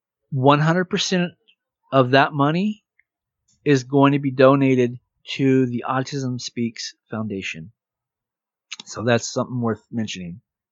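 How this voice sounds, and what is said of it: Strained, nearly lost voice. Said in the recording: “my voice is almost gone again, but I've been talking a lot since I woke up”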